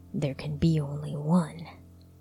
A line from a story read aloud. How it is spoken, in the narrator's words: muttered to his surging courage